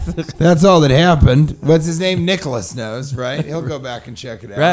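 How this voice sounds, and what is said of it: Usual voice. Nothing is said of it.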